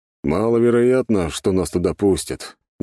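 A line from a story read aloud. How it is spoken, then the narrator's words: Reluctant grumble. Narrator (Russian): неохотно проворчал Юрий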